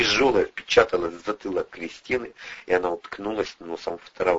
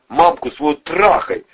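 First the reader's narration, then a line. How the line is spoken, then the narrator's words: Injured man snapping. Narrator (Russian): огрызнулся пострадавший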